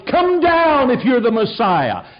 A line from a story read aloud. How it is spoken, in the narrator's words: They milled about the cross and shouted